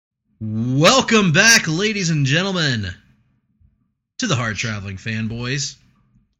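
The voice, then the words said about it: Radio announcer voice. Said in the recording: “that's a little bit of radio voice ... my reporter voice, radio reporter voice from college”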